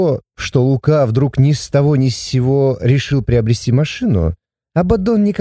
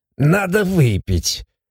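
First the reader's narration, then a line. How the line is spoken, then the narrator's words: Fearful mutter. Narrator (Russian): бормотал он, не смея оглянуться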